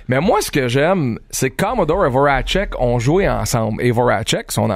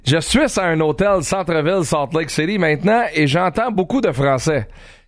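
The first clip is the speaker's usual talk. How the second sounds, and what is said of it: Mike Commodore's accent in French. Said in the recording (French): “Je le lis avec son accent.”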